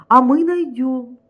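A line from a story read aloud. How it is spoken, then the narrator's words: Boss exclaiming. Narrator (Russian): воскликнул начальник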